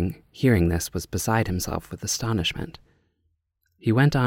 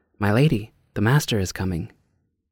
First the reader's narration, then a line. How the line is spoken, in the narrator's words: Being alarmed, called out